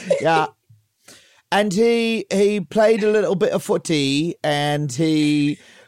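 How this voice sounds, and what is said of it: Poor put-on British accent. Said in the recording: “My English, my British accent sucks. I'm going to participate in the bit, but it fucking sucks ... I'm like doing an impression of like a BBC episode of Fawlty Towers”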